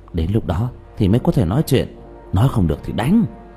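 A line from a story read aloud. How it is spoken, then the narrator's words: Quiet voice. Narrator (Vietnamese): Trương Vô Sanh quay đầu nhìn bảo tháp rồi nhỏ giọng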